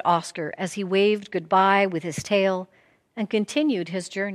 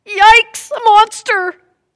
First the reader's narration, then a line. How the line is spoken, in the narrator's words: Oscar yelled